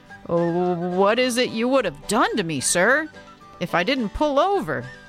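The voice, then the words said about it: Timid voice. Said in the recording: “in a timid voice”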